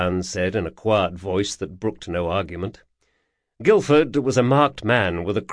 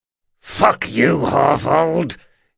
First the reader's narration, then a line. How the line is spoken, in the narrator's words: hissed Guilford, suddenly angry enough to make most men take a step back